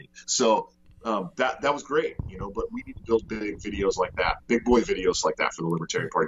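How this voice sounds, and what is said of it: Great radio voice. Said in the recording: “You got a great, I would kill for that radio voice.”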